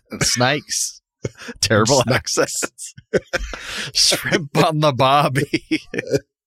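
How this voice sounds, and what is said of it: Put-on accent, done well. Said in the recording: “That gets me in the accent perfectly every time.”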